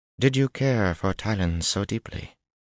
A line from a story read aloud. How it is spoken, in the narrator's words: She said in a cautious voice